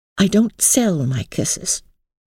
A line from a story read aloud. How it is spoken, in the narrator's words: said, lifting her head as haughtily